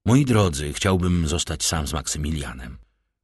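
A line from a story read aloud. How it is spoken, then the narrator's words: Gentle fatherly voice. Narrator (Polish): rzekł łagodnie z ojcowska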